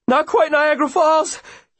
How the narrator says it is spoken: he pants

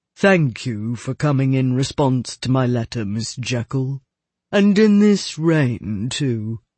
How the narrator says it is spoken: He said, in his cadaverous voice

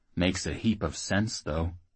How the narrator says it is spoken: Mead said quietly

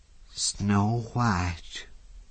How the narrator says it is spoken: said breathlessly

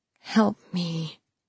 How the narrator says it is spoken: Maria whispered to him

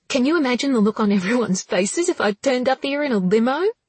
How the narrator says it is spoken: Another squeal

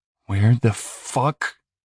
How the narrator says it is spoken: Max said, his words coming out in great, livid gasps

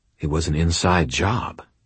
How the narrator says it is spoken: I said quietly

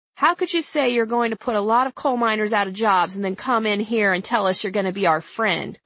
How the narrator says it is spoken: Copley said

